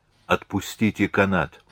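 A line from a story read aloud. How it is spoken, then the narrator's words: Whisper. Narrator (Russian): прошептал голос Теодороса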